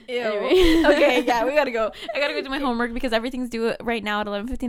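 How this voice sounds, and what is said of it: Usual voice. Nothing is said of it.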